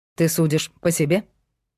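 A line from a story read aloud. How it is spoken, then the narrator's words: Angry question. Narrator (Russian): зло спросил Павел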